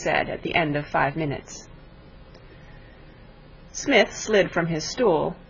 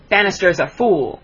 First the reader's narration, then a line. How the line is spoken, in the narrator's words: snapped Mr